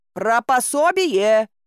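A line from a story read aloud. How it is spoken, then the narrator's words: Shout after someone. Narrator (Russian): крикнул ему вслед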